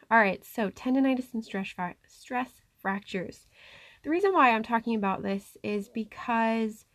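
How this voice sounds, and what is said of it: Slightly breathless, shivery voice. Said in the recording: “if it sounds like I'm out of breath, it's probably because I'm shivering”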